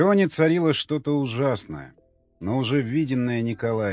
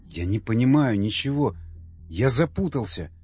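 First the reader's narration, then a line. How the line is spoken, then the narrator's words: Sighing. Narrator (Russian): вздохнул он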